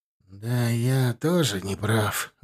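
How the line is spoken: Forced out reluctantly. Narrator (Russian): выдавил из себя Борщевский

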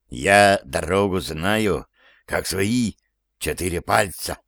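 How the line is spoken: Mysterious whisper. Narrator (Russian): сообщает он Андрею таинственным шепотом

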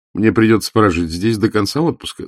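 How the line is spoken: Laughing. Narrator (Russian): засмеялась Эвда

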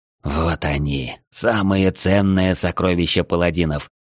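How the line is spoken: Whisper. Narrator (Russian): прошептал Арчибальд

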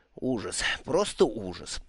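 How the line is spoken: Muttered. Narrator (Russian): пробормотал он

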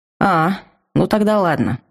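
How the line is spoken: Relieved sigh, calming girl. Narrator (Russian): облегченно вздохнула девушка, постепенно успокаиваясь

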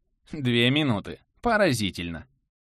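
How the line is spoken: Approving snort. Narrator (Russian): Азари хмыкнула, одобрительно

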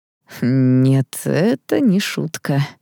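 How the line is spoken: Tired. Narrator (Russian): устало сказал магистр Эдуард

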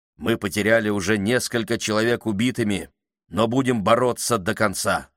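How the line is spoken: Plain. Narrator (Russian): сказал он

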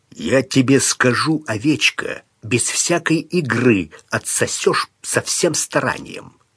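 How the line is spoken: Menacing, through clenched teeth. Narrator (Russian): он грозно процедил

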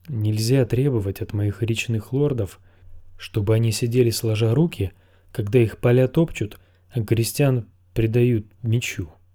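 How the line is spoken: Plain. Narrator (Russian): сказал Эдмар

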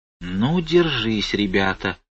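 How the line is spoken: Whisper from crowd. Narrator (Russian): прошептали в толпе

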